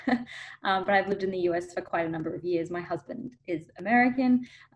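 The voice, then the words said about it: Australian accent. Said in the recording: “I'm actually originally from Australia, from Melbourne. So if you're hearing an accent, that's why.”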